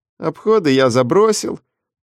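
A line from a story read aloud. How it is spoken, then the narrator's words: Glum, dejected. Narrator (Russian): поведал Дэв уныло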